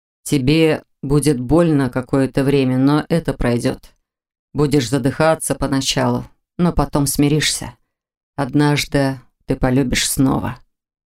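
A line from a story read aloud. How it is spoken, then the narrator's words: Quiet reassurance. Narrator (Russian): заверил он тихо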